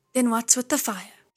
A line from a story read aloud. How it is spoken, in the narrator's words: he asked